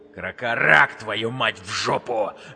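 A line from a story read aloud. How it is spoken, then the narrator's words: Envious bark. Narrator (Russian): рявкнул завистливый Вик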